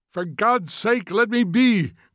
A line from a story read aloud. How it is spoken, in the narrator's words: cried Montag passionately